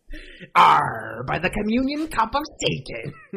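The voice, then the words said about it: Good put-on pirate voice. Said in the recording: “get our pirate voices out of the way ... you guys did two really good takes on that”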